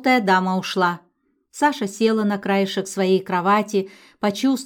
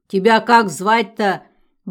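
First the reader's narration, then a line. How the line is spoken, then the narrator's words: Deep-voiced question. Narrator (Russian): басом спросила она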